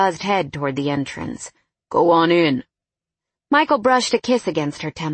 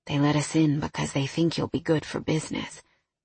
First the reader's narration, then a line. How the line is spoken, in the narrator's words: Michael whispered in her ear